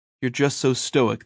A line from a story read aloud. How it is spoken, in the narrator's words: they said